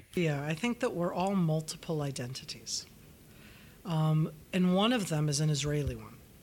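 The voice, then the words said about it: North American accent. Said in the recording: “you can hear that I have a nice North American accent in my English.”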